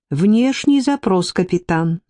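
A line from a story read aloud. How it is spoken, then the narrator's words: Melodic female computer voice. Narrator (Russian): Женским голосом мелодично отозвалась коммуникационная программа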